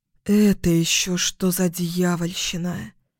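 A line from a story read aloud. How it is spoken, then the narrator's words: Breathless, frozen in shock. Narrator (Russian): выдохнула, замирая на месте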